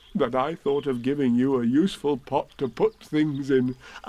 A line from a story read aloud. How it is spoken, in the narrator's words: said Pooh happily